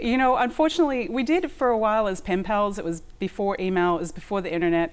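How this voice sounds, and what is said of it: Australian accent. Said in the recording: “I still hear the Australian accent. You haven't picked up a New Jersey accent”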